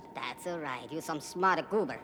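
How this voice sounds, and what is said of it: Funny alien character voice. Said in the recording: “It's alien voice. ... You have the funny accent. Is Plutonese?”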